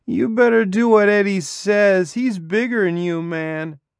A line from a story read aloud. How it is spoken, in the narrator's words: The girl said in her slurry voice